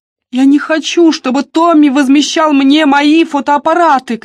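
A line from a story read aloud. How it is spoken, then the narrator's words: Shouted. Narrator (Russian): крикнула Дебора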